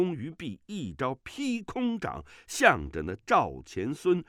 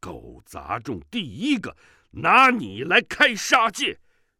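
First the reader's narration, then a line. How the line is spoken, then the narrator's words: Drunk, furious roar. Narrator (Chinese): 乔峰酒意上涌，怒气渐渐勃发，不禁怒火不可遏制，喝道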